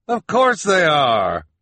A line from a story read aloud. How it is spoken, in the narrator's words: Jerome said